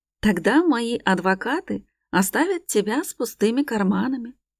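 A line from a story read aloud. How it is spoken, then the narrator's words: Almost calm statement. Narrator (Russian): почти спокойно заявляет Руслан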